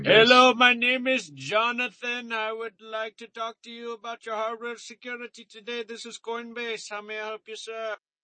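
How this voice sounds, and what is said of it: South Indian accent. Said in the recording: “You must be from South India. I noticed a little twang.”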